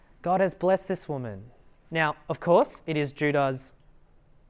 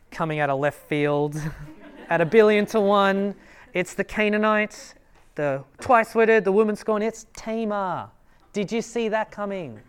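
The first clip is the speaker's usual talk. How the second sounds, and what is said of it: Sportscaster voice. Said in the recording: “my best sportscaster voice.”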